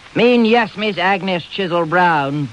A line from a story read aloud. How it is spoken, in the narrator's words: boomed Mr